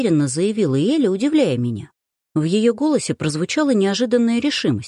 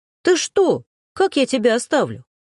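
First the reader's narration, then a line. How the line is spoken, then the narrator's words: Exclaiming. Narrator (Russian): Воскликнула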